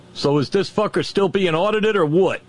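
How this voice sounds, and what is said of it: Put-on New Jersey or Boston accent. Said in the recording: “said with some New Jersey or Boston accent”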